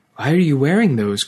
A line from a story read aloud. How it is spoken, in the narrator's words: cried Marissa